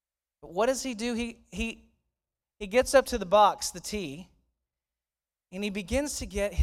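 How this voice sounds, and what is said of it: Usual voice. Nothing is said of it.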